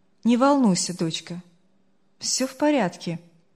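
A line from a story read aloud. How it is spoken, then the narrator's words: Older voice, almost calm. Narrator (Russian): голос постарше почти спокойно ответил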